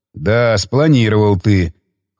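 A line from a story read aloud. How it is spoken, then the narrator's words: Skeptical snort. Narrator (Russian): хмыкнул он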